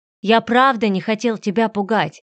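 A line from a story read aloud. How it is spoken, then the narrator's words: Exclaiming. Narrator (Russian): воскликнул Фредерик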